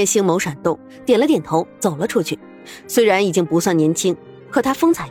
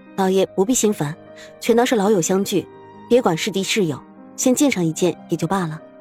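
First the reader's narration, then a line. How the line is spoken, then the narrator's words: Gentle. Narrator (Chinese): 苏月心温柔开口道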